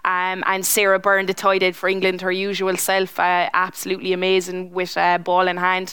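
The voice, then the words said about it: Limerick Irish accent. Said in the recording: “in my Limerick accent”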